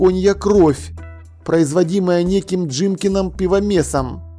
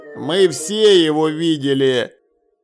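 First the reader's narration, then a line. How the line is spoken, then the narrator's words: Gloomy. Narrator (Russian): мрачно сказал Ваймс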